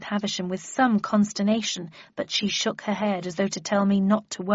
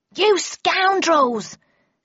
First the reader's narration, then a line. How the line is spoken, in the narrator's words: shouted a second voice, still from behind the door